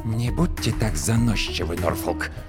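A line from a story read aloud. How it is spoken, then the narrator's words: Hissing. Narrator (Russian): прошипел клиент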